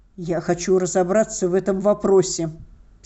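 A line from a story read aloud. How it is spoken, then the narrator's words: Angry. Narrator (Russian): сердито сказал он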